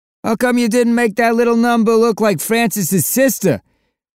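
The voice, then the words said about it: Thick New Jersey accent. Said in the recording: “a voice behind him called in a thick New Jersey accent.”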